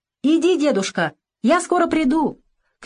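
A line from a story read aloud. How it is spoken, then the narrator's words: Shouting. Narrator (Russian): крикнула она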